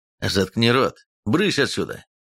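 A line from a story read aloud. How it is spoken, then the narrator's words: Sharp cry. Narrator (Russian): вскрикнул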